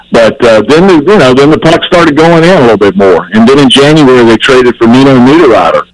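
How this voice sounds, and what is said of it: Southern American accent. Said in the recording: “I can't listen to a guy with a southern accent talk about hockey ... Your southern accent, I can't take it.”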